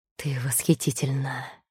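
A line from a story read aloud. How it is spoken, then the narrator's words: Breathless. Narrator (Russian): выдохнул он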